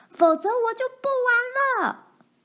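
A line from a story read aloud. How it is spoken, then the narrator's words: Shrieking. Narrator (Chinese): 奈妮尖叫起来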